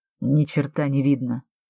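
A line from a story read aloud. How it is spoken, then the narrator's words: Muttered. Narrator (Russian): пробормотал Алекс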